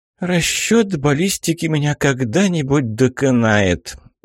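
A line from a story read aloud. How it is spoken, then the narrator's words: Weary drawl. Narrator (Russian): устало протянула Аллегра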